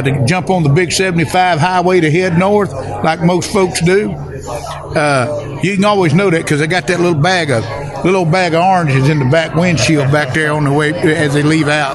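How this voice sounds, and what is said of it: Authentic regional accent. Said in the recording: “this is an authentic accent we're hearing”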